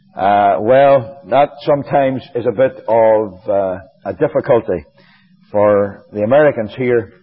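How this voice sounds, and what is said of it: Northern Irish accent. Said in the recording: “she was from Northern Ireland ... you haven't lost your accent ... If you were all a bunch of Northern Irish people, I'd have no difficulty”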